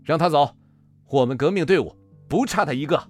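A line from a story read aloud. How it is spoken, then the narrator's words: Shouting in unison. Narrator (Chinese): 刘勇、向铁柱、向猛都不约而同地喊了起来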